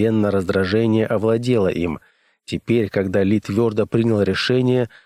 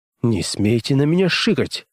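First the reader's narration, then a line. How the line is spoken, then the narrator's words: Sharp whisper. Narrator (Russian): резко прошептал он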